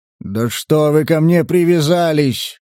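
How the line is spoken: Growl. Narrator (Russian): рыкнул Сатурн

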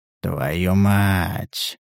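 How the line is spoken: Through gritted teeth. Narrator (Russian): процедил охотник

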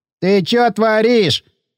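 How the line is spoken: Whining. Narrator (Russian): заскулило тело

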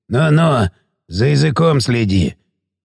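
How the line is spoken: Grunt, smirking. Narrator (Russian): хмыкнул

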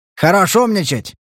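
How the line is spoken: Barked. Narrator (Russian): рявкнул тот

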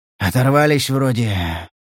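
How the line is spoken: Hoarse. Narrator (Russian): сипло выговорил Леший

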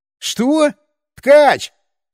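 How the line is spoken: Shout. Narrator (Russian): снова крикнул

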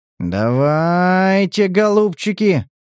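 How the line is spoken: Drawn out, drawling. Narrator (Russian): протянул правый брат

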